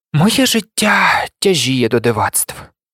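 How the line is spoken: Sighing. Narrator (Ukrainian): зітхнув Гаррі

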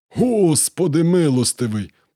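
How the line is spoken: Strained hoarse gasp. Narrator (Ukrainian): прохрипів Карджіджі, коли мотузка натяглася знов

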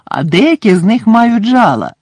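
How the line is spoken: Cheerful reply. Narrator (Ukrainian): радісно відповів Гегрід

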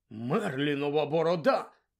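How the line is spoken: Surprised exclamation. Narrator (Ukrainian): здивовано вигукнув містер Візлі

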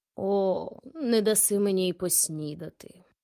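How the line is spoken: Sighing owl. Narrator (Ukrainian): зітхнула сова

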